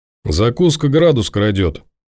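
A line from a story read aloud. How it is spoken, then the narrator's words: Gloomy. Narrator (Russian): мрачно отвечает Павел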